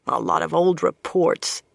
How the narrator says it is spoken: Swan grumbled

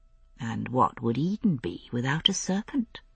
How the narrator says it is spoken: I murmured

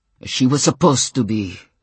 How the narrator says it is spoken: Stefan said savagely

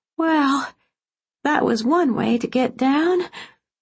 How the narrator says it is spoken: groaned

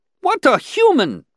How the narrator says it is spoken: exclaimed another, interrupting

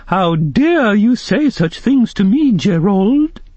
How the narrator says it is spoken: say in a high voice

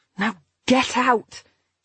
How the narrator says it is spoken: she said hoarsely

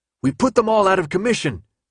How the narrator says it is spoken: Minho shouted in his ear

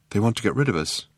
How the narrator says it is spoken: said Trillian nervously

